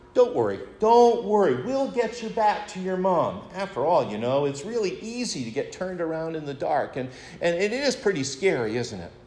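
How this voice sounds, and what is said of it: Reassuring fatherly voice. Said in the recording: “in my best daddy voice”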